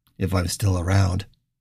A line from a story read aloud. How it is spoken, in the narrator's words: Richard sighed